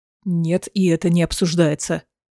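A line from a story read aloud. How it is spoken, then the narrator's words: Growled. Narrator (Russian): прорычал Рован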